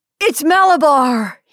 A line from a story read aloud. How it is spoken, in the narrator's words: he screamed in a powerful, strange voice